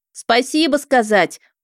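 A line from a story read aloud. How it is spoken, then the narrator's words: Impatient shout. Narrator (Russian): уже нетерпеливо крикнула я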